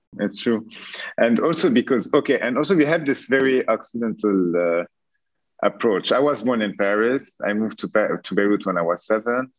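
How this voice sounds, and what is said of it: French accent. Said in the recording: “very French accent”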